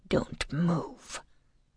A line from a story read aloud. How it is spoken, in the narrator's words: Jamin whispers